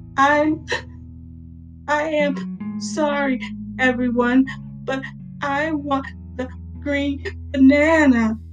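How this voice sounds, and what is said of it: Hiccupy voice. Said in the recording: “in a hiccupy voice”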